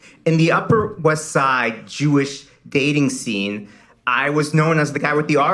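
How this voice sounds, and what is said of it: Usual voice. Nothing is said of it.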